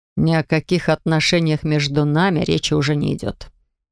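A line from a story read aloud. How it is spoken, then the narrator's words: Sepulchral, grave voice. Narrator (Russian): проговорил он за могильным голосом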